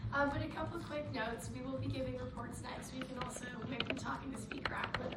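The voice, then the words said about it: Hoarse, lost voice, vocal fry. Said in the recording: “Sorry for the vocal fry today. I've lost my voice, and so if I just sound like this”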